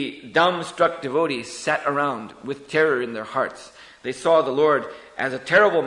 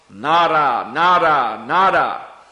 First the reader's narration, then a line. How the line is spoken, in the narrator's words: The Lord began to call out loudly